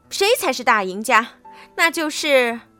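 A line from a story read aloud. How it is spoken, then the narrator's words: Proud shout. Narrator (Chinese): 回过头傲气的喊道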